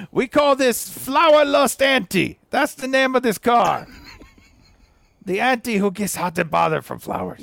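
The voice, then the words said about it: Good Italian accent. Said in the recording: “You have a great Italian accent”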